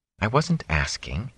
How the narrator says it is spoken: Egwene muttered into her cloak

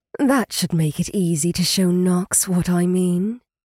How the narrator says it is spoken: she purred

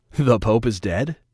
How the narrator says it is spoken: Remus quipped with a chuckle

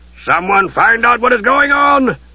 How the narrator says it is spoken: Harry Aiken roared

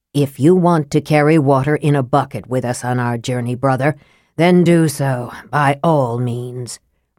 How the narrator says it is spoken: Raistlin said coldly

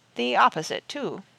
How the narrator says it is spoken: added sadly

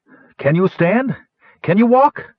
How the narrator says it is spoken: she cried above the howling wind

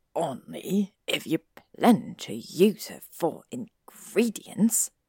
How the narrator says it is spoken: Snape hissed

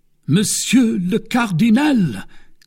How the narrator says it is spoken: cried the stupefied

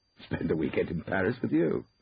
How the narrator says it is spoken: said, laughing

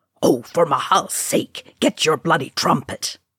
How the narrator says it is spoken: Dwalin hissed

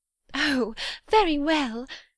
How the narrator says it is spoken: exclaimed Miss Bates

